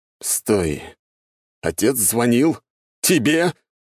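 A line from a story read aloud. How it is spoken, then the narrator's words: Roaring. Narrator (Russian): взревел куратор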